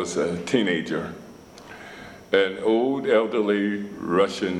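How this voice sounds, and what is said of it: Usual voice. Nothing is said of it.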